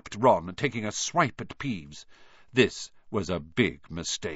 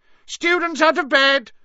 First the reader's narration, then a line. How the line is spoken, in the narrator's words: Peeves bellowed